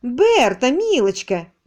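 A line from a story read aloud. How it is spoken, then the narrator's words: Cheerful burbling. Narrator (Russian): весело забулькала Теола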